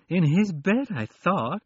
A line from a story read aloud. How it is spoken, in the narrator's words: she said, her voice becoming a moan of misery as she realized what had happened